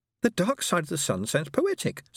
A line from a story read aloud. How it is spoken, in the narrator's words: said Kajar brightly